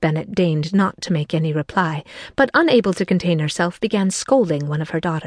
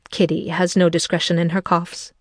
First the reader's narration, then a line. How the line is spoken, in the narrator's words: said her father